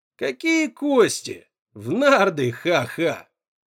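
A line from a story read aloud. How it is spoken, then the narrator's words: Laughing. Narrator (Russian): Блад рассмеялся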